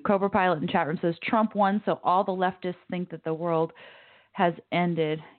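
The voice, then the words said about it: Slightly hoarse voice. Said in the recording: “In my voice, I can definitely hear a little bit of hoarseness. I've got a bit of a cold. I woke up this morning actually fairly hoarse”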